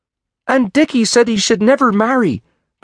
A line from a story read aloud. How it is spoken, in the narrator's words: cried Jimmy